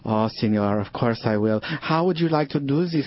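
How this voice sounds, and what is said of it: Deliberately bad put-on foreign accent. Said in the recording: “It is bad accent theater”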